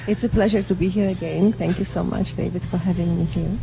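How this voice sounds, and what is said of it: Polish accent. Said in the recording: “Born and raised in Poland. ... I could tell by the accent.”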